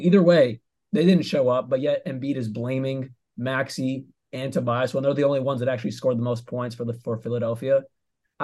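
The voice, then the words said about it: Somewhat hoarse voice. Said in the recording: “my voice is kind of hoarse. I'm still recovering from Game 7.”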